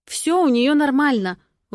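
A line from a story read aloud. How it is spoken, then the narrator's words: Indignant snap. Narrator (Russian): возмущенно бросаю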